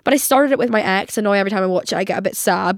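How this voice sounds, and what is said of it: Congested, sick-sounding voice. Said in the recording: “My nose, I'm still getting over my illness. I don't know if you can tell from my voice ... my nose has just progressively been running worse and worse”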